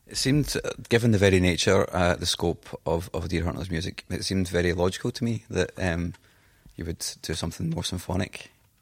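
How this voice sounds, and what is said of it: Scottish accent. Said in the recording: “my Scottish accent will mangle the words”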